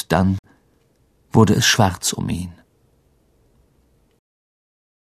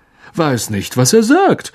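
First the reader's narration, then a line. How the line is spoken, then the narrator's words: Loud announcement. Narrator (German): verkündete Lockhart mit lauter Stimme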